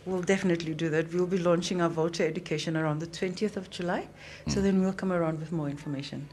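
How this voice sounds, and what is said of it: London-sounding English accent. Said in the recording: “Your accent sounds very Londonish.”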